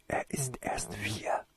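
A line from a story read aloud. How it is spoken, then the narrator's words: Whisper. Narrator (German): flüsterte Toriesa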